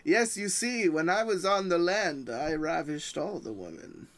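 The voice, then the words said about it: Boastful accented character voice. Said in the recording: “I'm hearing an accent kind of like Vlasidius ... He has a very boastful voice”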